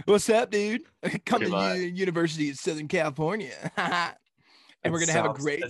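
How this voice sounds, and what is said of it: Imitates another person doing California accent. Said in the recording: “trying to suppress his drawl a little bit. He's trying to get like a California accent ... It sounds horrible. It's awful when he tries.”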